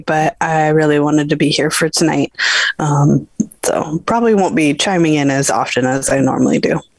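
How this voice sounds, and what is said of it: Voice off from a cold. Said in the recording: “who's fighting a bit of a cold here ... my voice is a little off today”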